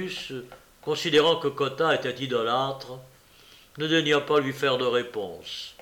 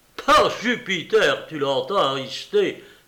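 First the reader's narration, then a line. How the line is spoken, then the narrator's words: Exclaiming. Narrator (French): s'écria Cotta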